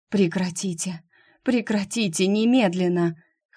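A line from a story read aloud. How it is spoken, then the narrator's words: Hoarse, strangled whisper. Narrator (Russian): Хрипло, как будто ее душат, прошептала Шуалейда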